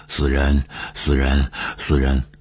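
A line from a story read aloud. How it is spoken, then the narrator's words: Sinister muttering. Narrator (Chinese): 他狞笑，嘴里嘟囔着说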